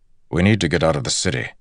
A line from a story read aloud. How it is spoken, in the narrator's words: Bashir said, his voice urgent